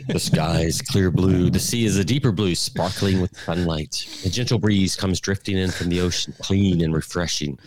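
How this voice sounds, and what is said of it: Congested, sinus-affected voice. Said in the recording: “you got the sinus voice now”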